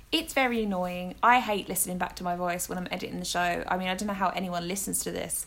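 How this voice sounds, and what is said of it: Mixed Essex and northern English accent. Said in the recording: “my accent's getting a little bit of a hybrid ... my accent is from Essex. I have Welsh family, I have Cockney family, and now I have Northeastern family. So it's a big mixture”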